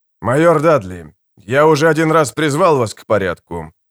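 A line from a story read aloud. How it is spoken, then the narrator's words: Calm. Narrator (Russian): спокойно сказал Дивол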